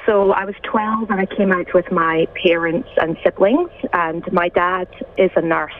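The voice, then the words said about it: Distinctive Scottish accent. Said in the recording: “Especially one as distinctive as yours... straight from Scotland... you still got that beautiful accent”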